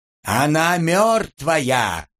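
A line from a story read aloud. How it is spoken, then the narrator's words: Panicked yell. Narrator (Russian): завопил Антип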